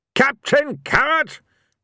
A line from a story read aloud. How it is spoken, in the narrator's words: Ridcully roared